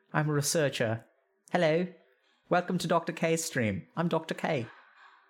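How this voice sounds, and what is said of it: Uncertain attempt at British accent. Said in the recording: “Can I do a British accent? Is this British? I'm not quite sure. ... British, isn't it? Not quite sure, though.”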